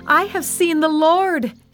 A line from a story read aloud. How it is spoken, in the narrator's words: she shouted to the disciples